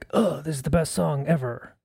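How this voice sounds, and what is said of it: Imitates another person's voice. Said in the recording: “That's a really good Brian Wilson impersonation I'm doing. Ugh.”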